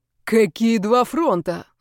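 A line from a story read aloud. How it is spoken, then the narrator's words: Yelled. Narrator (Russian): заорал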